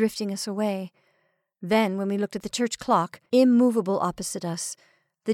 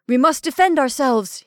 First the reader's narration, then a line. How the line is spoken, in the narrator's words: he cried